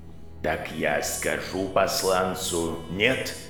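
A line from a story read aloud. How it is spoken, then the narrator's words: Strangely soft. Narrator (Russian): голос Аластера прозвучал странно мягко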